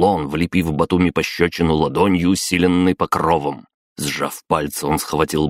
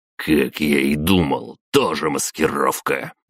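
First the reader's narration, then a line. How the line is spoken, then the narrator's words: Through gritted teeth. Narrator (Russian): процедил аристократ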